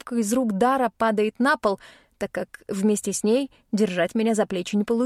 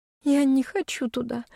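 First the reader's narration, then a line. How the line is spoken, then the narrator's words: Sobbing. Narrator (Russian): всхлипываю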